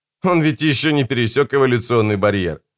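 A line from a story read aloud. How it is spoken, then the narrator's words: Laughing. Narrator (Russian): рассмеявшись, сказал Бокату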